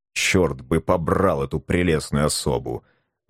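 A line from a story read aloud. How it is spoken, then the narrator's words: Grumbling. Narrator (Russian): ворчал математик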